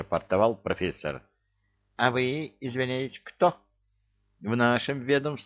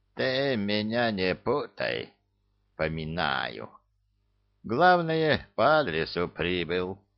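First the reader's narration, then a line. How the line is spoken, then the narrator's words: Creaky old voice. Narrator (Russian): проскрипел пенсионер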